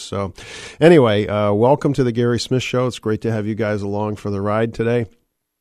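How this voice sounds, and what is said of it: Hoarse, froggy voice. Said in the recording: “I'm sorry if I sound a little bit froggy. I'm just getting over a cold... my voice is frogged up like this”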